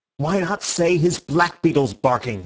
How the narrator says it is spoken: said Syme furiously

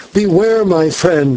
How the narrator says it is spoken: By instinct, as it were, I cried

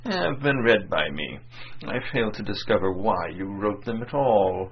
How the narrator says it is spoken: State Councillor Wormut began in his gentle and dispassionate tone

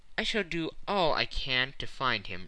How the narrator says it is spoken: replied Phileas Fogg

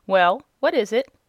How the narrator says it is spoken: asked the rabbit sharply

